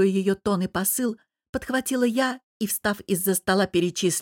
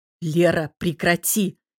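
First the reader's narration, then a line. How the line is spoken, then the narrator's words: Father growling. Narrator (Russian): вмешался папа и прорычал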